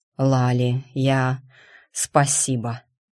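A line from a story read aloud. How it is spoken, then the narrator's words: Heartfelt exhale. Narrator (Russian): с чувством выдохнул он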